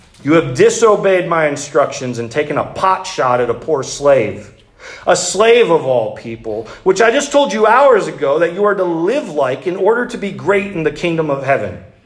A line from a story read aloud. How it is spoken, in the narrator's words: yelled Sarks